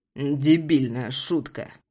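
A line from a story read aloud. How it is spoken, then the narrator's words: Growling. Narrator (Russian): прорычал я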